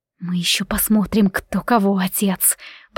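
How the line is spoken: Tense whisper. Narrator (Russian): прошептала я, сжимая кулаки

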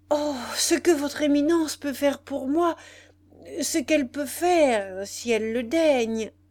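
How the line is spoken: Fervent, burning voice. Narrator (French): répétait Santo Bono d'une voix brûlante

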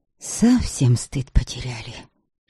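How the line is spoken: Whisper. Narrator (Russian): шептала рядом с Предславой Ведица Дировна

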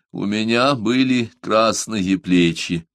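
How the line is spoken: Loud. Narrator (Russian): Он громко сказал

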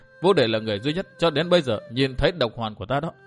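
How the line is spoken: Smiling. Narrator (Vietnamese): Liễu Tiểu Hồng mỉm cười nói

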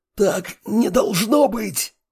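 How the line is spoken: Hoarse wheeze. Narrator (Russian): сипел тот

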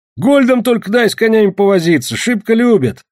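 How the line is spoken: Laughing. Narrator (Russian): смеялся Родион

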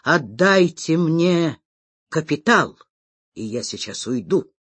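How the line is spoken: Quiet. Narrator (Russian): он тихо говорит

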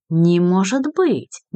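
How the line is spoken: Somewhat bewildered. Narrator (Russian): несколько растерянно произнесла Динара Ибрагимова

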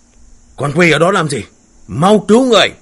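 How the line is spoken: Shout. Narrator (Vietnamese): tiếng quát

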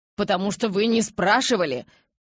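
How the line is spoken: Frightened yell. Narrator (Russian): Перепуганно заорал в ответ

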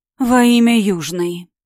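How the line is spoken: Moaned, as if migraine. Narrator (Russian): простонала Риена, будто у нее разыгралась мигрень

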